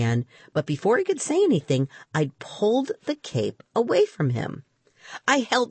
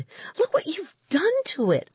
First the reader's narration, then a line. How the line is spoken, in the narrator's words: I cried